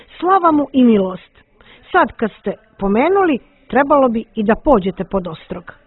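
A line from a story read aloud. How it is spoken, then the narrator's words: Young man exclaiming. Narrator (Croatian): Mladić uzviknu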